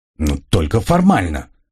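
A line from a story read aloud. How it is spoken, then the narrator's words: Displeased grumble. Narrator (Russian): буркнул Грегор, явно не очень довольный моей самодеятельностью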